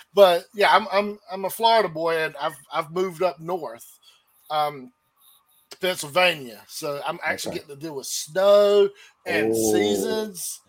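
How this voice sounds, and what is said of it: Southern US accent. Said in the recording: “You wouldn't expect it with this accent, right? You'd think Georgia or Texas or something.”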